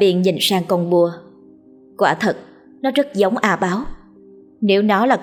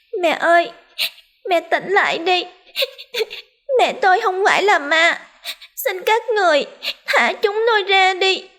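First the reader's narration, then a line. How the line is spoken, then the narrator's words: Crying, calling out. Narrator (Vietnamese): không ngừng khóc lóc gọi tên cô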